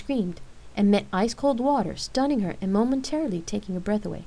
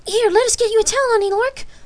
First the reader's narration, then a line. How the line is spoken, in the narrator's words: Cold stammered